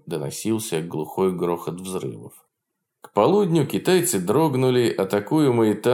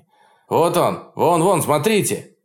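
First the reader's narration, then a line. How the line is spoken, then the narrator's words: Excited shouting. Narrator (Russian): возбужденно закричал Атахаси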